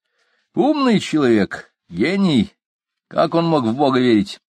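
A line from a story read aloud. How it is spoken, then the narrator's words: Scornful snort. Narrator (Russian): Профессор фыркнул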